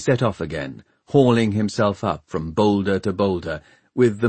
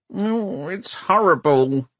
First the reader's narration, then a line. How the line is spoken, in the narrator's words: he grumbled